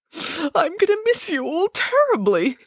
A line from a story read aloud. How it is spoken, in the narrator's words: he sobbed